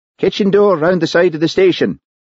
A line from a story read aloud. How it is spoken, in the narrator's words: He shouted